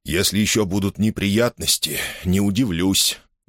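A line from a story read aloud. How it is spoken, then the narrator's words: Elderly man grumbling. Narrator (Russian): буркнул пожилой джентльмен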